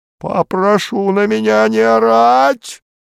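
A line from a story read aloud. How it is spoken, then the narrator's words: Shrieked. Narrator (Russian): взвизгнул Бромберг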